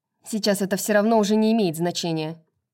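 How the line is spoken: Careless, through teeth. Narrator (Russian): небрежно процедила Пипа

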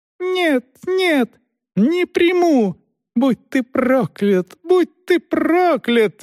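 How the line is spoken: Shrieking curses. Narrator (Russian): визжал колдун

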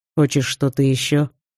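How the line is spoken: Plain. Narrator (Russian): спросил мужчина

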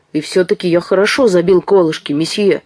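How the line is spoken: Angry reply. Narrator (Russian): сердито ответил Медар

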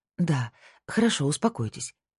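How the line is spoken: Gentle. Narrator (Russian): мягко сказала Карин

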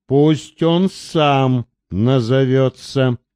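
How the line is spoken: Muffled voice. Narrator (Russian): глухо сказал тот

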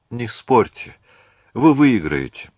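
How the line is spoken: Sighing. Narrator (Russian): вздохнула Марианна

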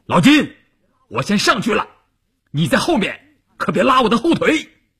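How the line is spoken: Loud. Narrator (Chinese): 关山林大声地说

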